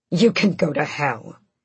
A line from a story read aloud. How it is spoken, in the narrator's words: Adian snapped